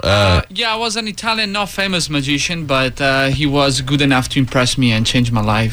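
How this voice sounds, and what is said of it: Italian accent. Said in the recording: “Oh, you got a great voice. You got a great accent ... I'm from Italy, Venice.”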